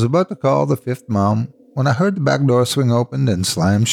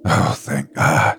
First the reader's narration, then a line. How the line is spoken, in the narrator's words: breathed